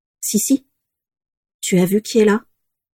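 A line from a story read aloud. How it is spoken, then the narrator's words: Toneless voice. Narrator (French): dit Daisy d'une voix blanche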